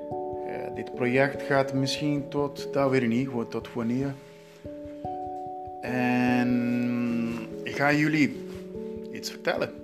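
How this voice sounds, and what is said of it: Non-native Dutch, Brazilian-born speaker. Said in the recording (Dutch): “Ik ben geen Nederlander. Kan jij mijn accent heel duidelijk eh, horen? ... ik ben in Brazilië geboren.”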